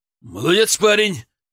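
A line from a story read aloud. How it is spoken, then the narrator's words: Loud, falsely cheerful. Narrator (Russian): неожиданно громко и даже с какой-то фальшивой бодростью похвалил он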